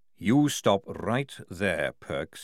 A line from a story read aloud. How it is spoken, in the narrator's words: he said, lowering his voice